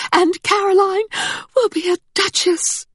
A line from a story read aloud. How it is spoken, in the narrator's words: her friend cried